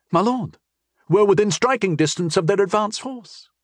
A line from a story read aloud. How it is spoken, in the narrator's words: he said urgently